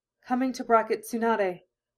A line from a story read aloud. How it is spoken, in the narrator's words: Hinata gasped, dizzy